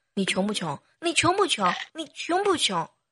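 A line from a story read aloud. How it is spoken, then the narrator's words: Shouted three times. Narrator (Chinese): 我都会对自己大喊三声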